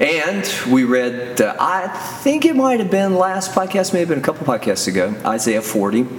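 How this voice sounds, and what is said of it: Usual voice. Nothing is said of it.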